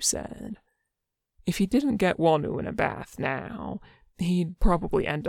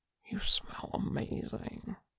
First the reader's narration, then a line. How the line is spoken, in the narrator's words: he murmured